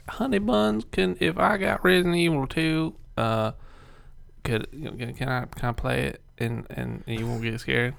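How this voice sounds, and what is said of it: Put-on country accent. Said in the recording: “I don't know why I'm talking country.”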